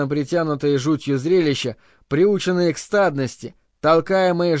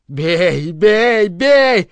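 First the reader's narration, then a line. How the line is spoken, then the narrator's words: Savage shouting. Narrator (Russian): кричал дикарь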